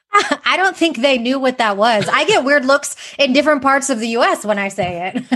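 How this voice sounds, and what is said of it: Slight Texan accent. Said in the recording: “I got a little bit of a Texan accent”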